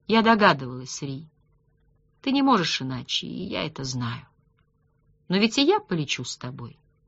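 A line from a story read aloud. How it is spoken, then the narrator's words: Smiling, soft sigh. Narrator (Russian): Он чувствовал улыбку и, тихонько вздохнув, ответила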